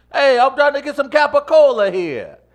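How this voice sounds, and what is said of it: Put-on New York accent. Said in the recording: “how's my New York? I've been working on my New York accent and attitude like recently.”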